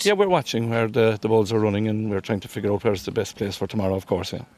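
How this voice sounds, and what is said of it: Irish Cork accent. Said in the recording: “accent there ... that Cork accent”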